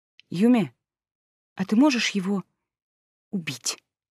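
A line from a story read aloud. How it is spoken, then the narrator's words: Nervous whisper shaking with anger. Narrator (Russian): Нервно шепнув, потому что саму меня уже трясло от гнева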